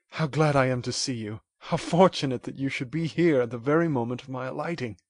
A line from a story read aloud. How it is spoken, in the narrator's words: exclaimed he